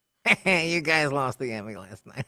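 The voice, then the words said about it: Imitates another person's voice. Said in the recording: “has been working on a David Spade”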